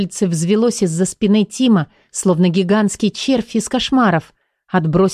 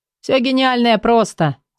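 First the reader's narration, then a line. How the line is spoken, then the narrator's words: Laughing. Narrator (Russian): засмеялся Тим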